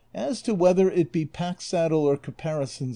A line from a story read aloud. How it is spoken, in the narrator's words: said the curate